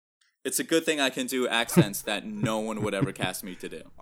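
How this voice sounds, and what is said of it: Usual voice. Nothing is said of it.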